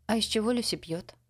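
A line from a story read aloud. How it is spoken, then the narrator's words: Plain question. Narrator (Russian): спросила Дорис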